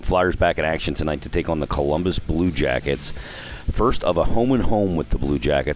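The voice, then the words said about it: Slightly hoarse voice. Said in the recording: “I sound a little hoarse today ... I was blowing my voice out all weekend”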